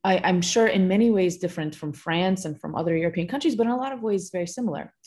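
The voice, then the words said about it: American accent. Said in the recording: “I think you can tell from my accent, I grew up in the US.”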